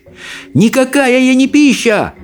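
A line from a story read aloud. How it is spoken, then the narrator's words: Yelling. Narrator (Russian): заорал Икинг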